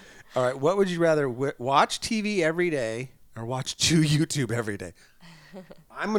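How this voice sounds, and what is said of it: Usual voice. Nothing is said of it.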